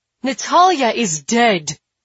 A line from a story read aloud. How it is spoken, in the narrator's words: she shouts